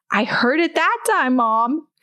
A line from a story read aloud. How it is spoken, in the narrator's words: Thalia yelled from the dining room